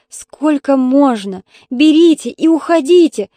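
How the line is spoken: Shouting. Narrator (Russian): закричала Таня старушке

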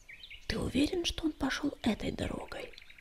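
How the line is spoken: Nervous whisper. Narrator (Russian): прошептала она, нервно оглядываясь по сторонам

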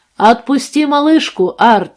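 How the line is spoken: Distant shout. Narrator (Russian): выкрикнул из-за полицейского джипа человек в униформе

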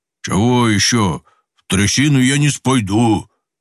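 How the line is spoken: Booming bass voice. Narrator (Russian): Прогудел детина басом

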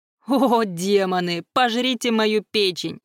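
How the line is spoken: Sobbing. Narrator (Russian): Руслан всхлипывал

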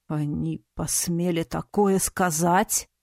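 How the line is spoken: Werewolf growl. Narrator (Russian): рыкнул оборотень

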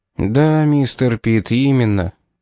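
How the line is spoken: Sigh. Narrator (Russian): вздохнул

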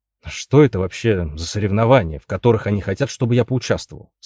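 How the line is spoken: Plain. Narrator (Russian): спросил Гарри

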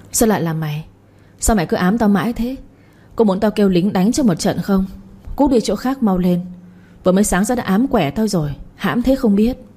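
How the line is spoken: Hissing through teeth. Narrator (Vietnamese): Mợ rít qua kẽ răng rồi nói

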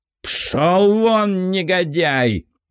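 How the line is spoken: Prince roaring. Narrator (Russian): взревел князь

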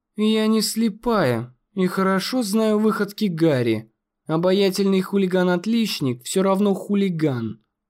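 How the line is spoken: Irritated sigh. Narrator (Russian): вздохнула она с раздражением

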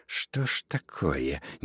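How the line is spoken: Impatient mutter. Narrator (Russian): нетерпеливо пробормотала

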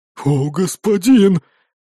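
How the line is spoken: Breathed out. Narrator (Russian): прямо-таки выдохнул торговец

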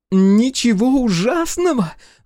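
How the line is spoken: Shrieking. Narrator (Russian): взвизгнула Белозерова

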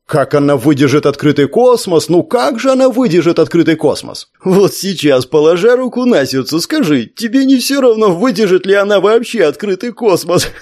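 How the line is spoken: Serious question, toad. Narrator (Russian): жаб его серьезно спросил

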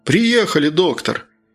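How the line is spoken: Cheerful shout. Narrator (Russian): Весело крикнул Прохор

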